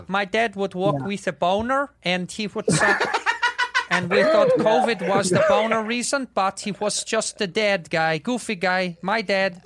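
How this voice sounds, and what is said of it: Put-on accent, judged spot on. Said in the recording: “Is that a good accent? ... It was dead on.”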